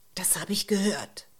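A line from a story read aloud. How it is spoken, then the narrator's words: Hiss. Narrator (German): Ulrike zischte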